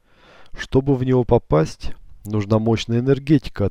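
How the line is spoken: Plain. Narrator (Russian): ответил он

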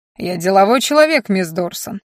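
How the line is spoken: Condescending tone. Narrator (Russian): отозвался Мальен с нисходительным тоном

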